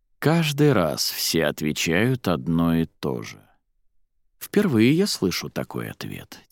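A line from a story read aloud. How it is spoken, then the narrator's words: Quiet. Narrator (Russian): тихо произнес он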